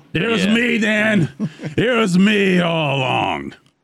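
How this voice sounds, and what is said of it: Vince McMahon impression. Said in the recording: “my Vince McMahon impression”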